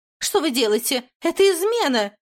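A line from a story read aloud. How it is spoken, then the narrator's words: Shrieking while struggling. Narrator (Russian): визжала Айвриан, пытаясь вырваться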